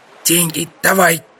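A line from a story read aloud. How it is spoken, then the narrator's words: Hoarse male voice. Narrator (Russian): прохрипел он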